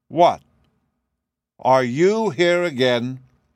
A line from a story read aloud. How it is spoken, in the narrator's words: a voice called out in a rather harsh tone